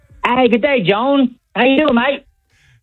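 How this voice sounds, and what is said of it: Australian accent. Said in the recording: “is this just an Australian accent, or is this the Crocodile Hunter?”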